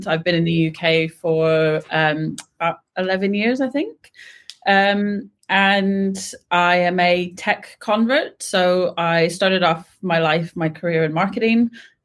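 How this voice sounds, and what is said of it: American whose accent doesn't sound American. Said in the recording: “I am American, even though you can't tell from the accent.”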